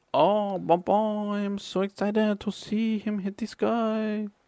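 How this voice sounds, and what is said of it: Mock French crowd voice. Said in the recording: “Can you do an impression of the French crowd?”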